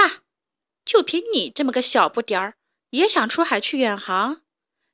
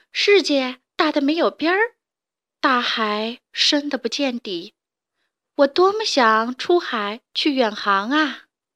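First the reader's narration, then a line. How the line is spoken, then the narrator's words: Sighing. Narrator (Chinese): 它不由得叹气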